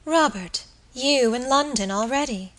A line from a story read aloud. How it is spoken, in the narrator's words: she exclaimed